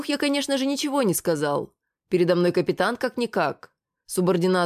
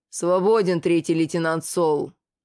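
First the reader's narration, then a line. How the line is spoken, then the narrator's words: Growled. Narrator (Russian): прорычал, наконец, Рогат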